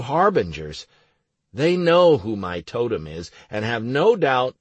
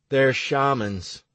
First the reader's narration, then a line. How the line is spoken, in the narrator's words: said sadly